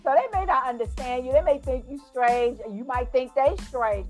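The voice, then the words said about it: New York accent. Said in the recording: “I still have a lot of my New York accent”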